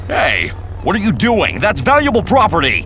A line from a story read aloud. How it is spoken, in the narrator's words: the reporter yelling